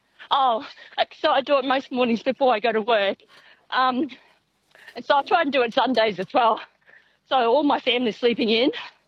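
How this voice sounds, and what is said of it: Out of breath, panting while talking. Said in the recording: “I can hear you out of breath.”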